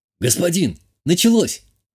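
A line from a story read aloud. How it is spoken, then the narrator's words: Exclamation. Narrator (Russian): воскликнул проводник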